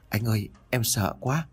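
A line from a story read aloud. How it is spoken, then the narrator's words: Trembling broken voice. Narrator (Vietnamese): Cô em tôi run rẩy với giọng đứt quãng mà nói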